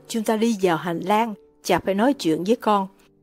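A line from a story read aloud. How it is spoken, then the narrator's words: Man whispering. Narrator (Vietnamese): ông thì thào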